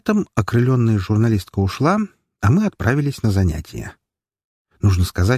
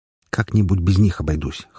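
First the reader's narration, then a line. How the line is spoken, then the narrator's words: Snorting. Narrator (Russian): хмыкнул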